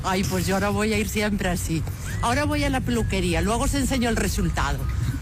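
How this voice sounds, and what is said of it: Strong Galician Spanish accent. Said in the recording (Spanish): “Es acento gallego, ¿eh? ... Sí, sí, es muy, muy gallega.”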